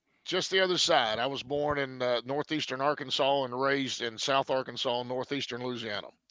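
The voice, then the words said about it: Southern US accent. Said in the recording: “Sounds like a Tennessee accent to me ... now you're sounding different. You switch gears. See, now you went back to your original accent”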